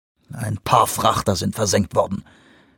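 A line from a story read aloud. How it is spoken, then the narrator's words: Growling. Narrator (German): knurrte Vanderbilt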